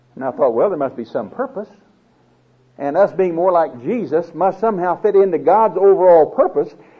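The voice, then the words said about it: Speaks with a noticeable accent. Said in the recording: “My accent's not bothering you.”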